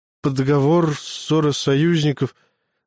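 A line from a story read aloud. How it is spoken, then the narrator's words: Stammering recitation. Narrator (Russian): запинаясь, продолжил посол цитировать закон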